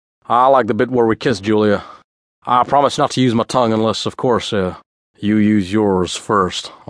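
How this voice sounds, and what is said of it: Slick southern drawl. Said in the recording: “Elvis in his slickest southern drawl”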